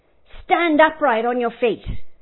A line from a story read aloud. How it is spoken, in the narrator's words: Paul says in a loud voice